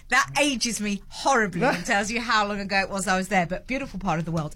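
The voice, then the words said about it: British accent. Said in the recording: “my terribly British accent”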